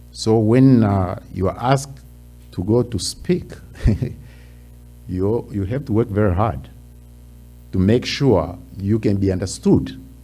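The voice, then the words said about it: Tanzanian accent. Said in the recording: “I come from Tanzania, that's in Africa... sometimes your accent, you almost have to listen very carefully in order to understand”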